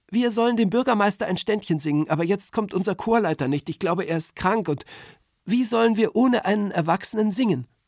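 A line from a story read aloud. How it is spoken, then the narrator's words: Excited voice. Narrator (German): ist sofort ganz aufgeregt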